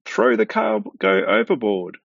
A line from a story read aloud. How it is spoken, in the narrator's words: The captain cried out